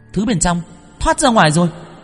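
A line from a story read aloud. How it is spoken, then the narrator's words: Exclaiming. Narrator (Vietnamese): Tuệ Linh kêu lên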